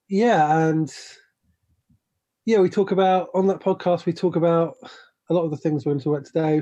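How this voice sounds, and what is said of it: British accent. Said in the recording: “I live in London, in the United Kingdom, which is why I have a British accent”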